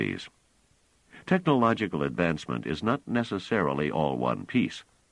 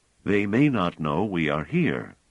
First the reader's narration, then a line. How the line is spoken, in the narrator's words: said Pellaret